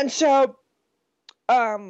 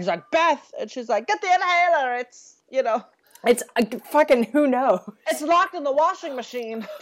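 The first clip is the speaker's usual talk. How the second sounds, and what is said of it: Bette Davis impression. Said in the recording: “doing the Bette Davis voice ... any excuse to do the Bette Davis voice”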